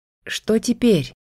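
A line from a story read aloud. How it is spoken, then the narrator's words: Hoarse, through water. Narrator (Russian): хрипло спросила я сквозь воду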